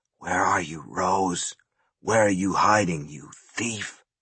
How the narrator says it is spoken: as the pain bit in and wisps of smoke curled out around his knuckles, he whispered

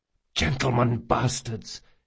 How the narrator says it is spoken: hissed Locke

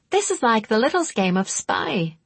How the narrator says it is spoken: she giggled

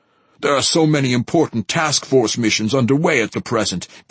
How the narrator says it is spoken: says Lord Asami, his voice urgent

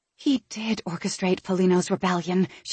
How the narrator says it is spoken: she breathed

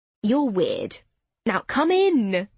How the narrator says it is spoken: Lauren said cheerfully

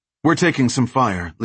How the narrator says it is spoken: Lisanne said, her voice matter-of-fact

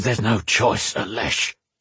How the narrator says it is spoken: Erwin hissed

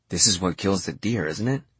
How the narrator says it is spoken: Samuel said

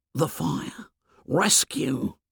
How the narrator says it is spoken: Piggy whispered

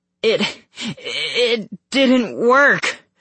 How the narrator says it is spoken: I stammered

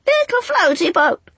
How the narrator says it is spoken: screeched the angels, taking up a new cry

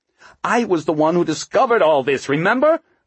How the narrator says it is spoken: Margot realized she was raising her voice

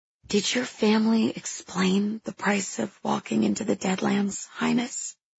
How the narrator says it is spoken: I whisper

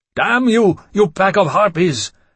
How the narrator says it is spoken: I shouted

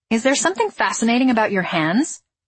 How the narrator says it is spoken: snapped

